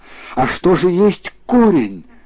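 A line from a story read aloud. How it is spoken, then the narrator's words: King exclaiming. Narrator (Russian): царь воскликнул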